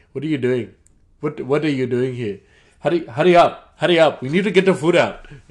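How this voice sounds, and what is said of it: Put-on Indian accent. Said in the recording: “he was from India ... don't hate me for the accent”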